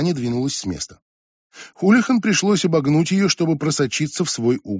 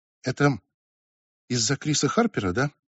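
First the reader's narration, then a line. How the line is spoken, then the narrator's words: Steady near whisper. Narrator (Russian): она не краснела и не путалась, но говорила все равно тихо, почти шепотом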